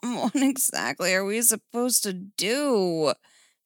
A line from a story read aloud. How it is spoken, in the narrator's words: Steph groaned